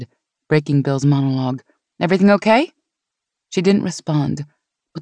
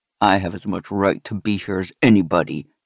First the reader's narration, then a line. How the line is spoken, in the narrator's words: he said, and his voice was low and dangerous